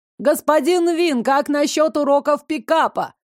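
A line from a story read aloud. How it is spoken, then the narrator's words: Journalist shouting. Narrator (Russian): крикнул один журналист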